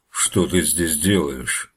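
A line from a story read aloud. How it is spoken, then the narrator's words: Menacing bear asking. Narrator (Russian): грозно спросил медведь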